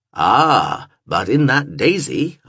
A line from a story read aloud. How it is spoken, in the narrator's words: I intoned, for this was a regular rant of Vincent's